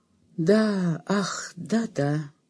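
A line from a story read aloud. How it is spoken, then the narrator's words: Sleepy mumble. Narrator (Russian): мать сонно пробормотала в ответ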